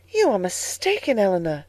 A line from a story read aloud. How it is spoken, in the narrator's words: said she, warmly